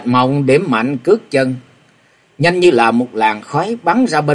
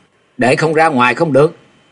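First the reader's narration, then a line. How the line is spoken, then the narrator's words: Loud roar. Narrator (Vietnamese): Thạch Mộng gầm to lên nói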